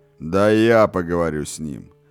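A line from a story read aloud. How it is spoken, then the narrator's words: Distant booming voice. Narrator (Russian): прогудел голос с другого конца стола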